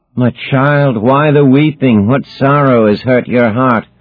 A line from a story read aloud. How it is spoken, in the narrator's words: Achilles groaned